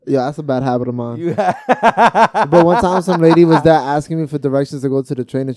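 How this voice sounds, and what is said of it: Usual voice. Nothing is said of it.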